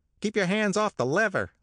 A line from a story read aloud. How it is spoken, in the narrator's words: snapped the elevator boy